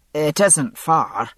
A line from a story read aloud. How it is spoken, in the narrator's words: he added, rather stiffly